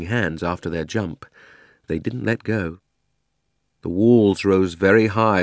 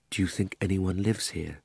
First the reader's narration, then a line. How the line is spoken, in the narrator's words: said Diggory at last, still in a whisper